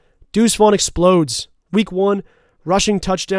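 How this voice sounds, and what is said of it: Usual voice. Nothing is said of it.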